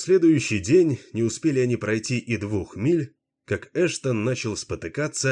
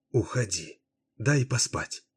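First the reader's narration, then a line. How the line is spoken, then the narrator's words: Whispered. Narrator (Russian): прошептала Врея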